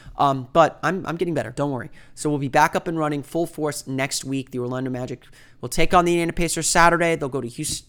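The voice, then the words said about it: Slightly rough, sick-sounding voice. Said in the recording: “you can kind of tell my voice is still a little bit sour, and I probably paused to cough a few times”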